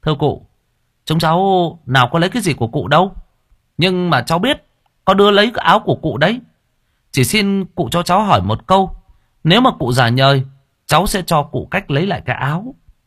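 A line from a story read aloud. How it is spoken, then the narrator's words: Smiling, calling down. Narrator (Vietnamese): Lễ ngồi trên cây mỉm cười mà nói với xuống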